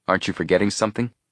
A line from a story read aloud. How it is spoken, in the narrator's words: asked